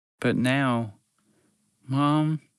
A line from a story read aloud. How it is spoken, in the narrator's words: he said, his voice shaking